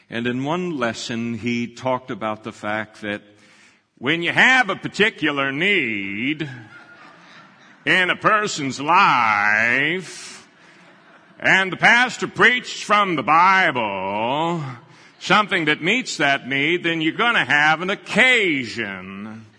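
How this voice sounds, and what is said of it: Imitates another person's voice, preacher cadence. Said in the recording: “my best imitation of Dr. Van Cleve. It's not too bad if you know him. ... he had that cadence with his voice that just kind of carried you along.”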